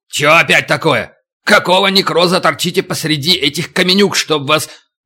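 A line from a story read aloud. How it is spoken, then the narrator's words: Yelled. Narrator (Russian): атаман заорал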